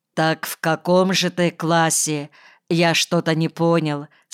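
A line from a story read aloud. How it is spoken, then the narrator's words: Plain. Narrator (Russian): спросил он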